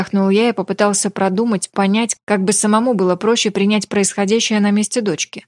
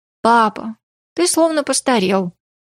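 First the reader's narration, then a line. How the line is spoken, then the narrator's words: Sighing. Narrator (Russian): вздохнула Ли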